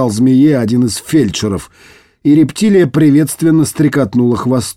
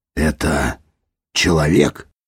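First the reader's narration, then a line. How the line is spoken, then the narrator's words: Breathless astonishment. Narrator (Russian): выдохнул Дитер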